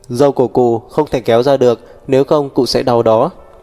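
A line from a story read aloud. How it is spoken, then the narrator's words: Laughing loudly. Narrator (Vietnamese): Mục Thiên Dương cười to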